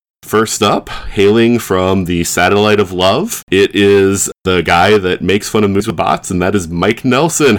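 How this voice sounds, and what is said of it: Smooth monotone radio announcer voice. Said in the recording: “you have like this NPR voice start going in. ... This nice monotone.”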